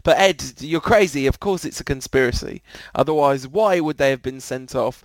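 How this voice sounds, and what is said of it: Impression drifting into Russian accent. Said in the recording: “This voice is clearly not Mourinho... now he's become Russian... my accent went just completely wrong”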